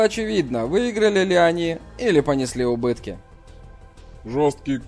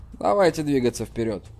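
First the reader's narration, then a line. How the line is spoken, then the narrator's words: Calm. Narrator (Russian): спокойно сказал Джан Ян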